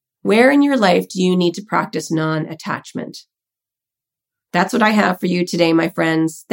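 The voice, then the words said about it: Croaky, hoarse voice. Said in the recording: “I sound a little like a croaky frog”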